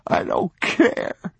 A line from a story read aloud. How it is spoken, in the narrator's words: the boy said, sobbing